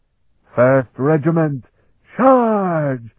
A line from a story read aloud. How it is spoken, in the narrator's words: Scarpa commanded in a great voice